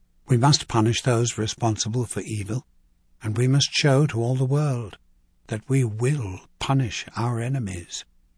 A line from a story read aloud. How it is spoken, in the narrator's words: she said softly